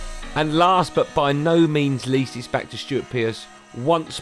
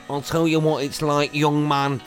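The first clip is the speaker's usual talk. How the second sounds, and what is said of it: Poor Brian Clough impression. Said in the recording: “what it's like to be playing under the great Brian Clough ... Sounds nothing like him. No one can do a Clough impression.”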